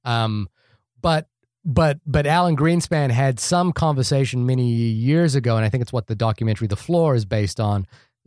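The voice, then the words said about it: Speaker with a noticeable accent. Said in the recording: “my funny accent, it's F-L-A-W”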